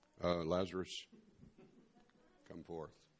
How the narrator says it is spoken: kind of mumbled

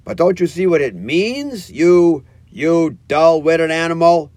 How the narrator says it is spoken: cried the rat impatiently

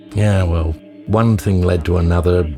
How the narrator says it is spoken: he said

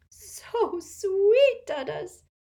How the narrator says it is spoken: sobbed into his massive chest

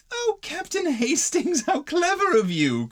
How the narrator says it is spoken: cried Mrs

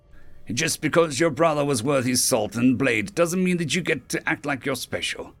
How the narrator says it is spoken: the brute growled

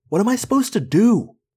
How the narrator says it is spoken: I yelled suddenly, shocking myself

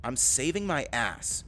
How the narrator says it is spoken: she spat back

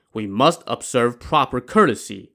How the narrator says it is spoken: Wu Song said

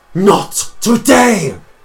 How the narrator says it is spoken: Chase screams out

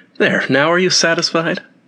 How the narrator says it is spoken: exclaiming

